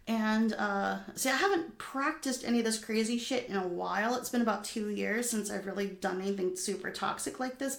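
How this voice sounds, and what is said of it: Manic, more excited voice than usual. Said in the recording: “as you can probably tell from my voice, I'm a bit more manic than normal.”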